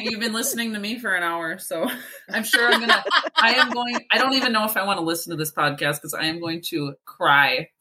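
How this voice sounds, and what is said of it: Thick Minnesotan accent. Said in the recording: “It comes, I don't know, it comes out thicker here and there. And I feel like it was very thick for this last hour. That's what we call our accent, thick.”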